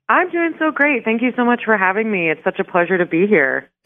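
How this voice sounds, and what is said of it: Chipper, happy-sounding voice. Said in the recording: “you sound kind of chipper ... you sound so happy”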